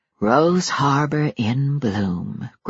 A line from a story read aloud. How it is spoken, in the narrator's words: Grace whispered